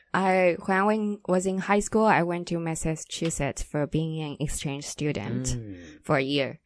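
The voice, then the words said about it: Slight East Coast American accent. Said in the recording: “her accent's a little like East Coast, the USA”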